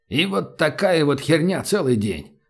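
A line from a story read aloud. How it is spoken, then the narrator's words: Mumbling. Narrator (Russian): пробормотал человек в черном пальто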